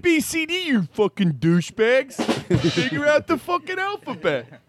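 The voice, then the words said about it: Put-on Philadelphia accent. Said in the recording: “That's a Philadelphia accent, which is different than Baltimore.”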